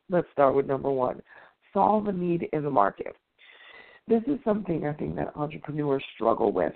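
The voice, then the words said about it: Tired-sounding voice. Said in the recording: “if you hear it in my voice, you can tell I haven't had a lot of rest”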